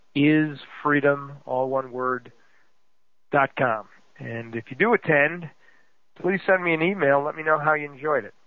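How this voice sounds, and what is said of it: Worn-out, nearly gone voice. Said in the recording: “as you can hear, my voice is almost gone, folks. I've been on the phone round the clock for the last 2 or 3 days and don't have much left”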